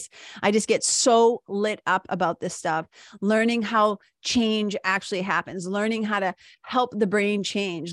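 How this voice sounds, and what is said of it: Excited, energetic voice. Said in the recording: “makes me so jazzed ... you can hear it in my voice”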